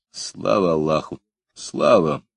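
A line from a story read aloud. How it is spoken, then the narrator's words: Muffled, hollow. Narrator (Russian): Тимур глухо произнес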